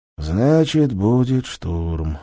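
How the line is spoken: Sighing. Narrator (Russian): вздохнул Карина Агеич

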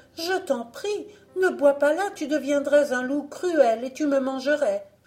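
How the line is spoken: Exclaimed. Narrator (French): s'écria-t-elle

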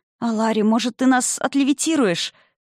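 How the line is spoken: Moaning. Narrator (Russian): простонала Арика

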